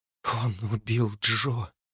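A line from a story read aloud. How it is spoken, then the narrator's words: Whispered. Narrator (Russian): прошептала она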